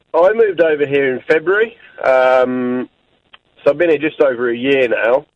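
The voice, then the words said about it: British speaker with Australian-sounding accent. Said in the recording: “You've got an Australian accent ... the Aussie's worn off a little bit, but the, but you sound Australian, mate.”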